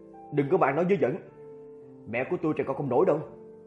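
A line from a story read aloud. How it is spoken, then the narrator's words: Angry. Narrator (Vietnamese): Chu Tường tức giận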